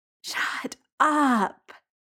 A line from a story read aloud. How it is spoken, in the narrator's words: Jamie groans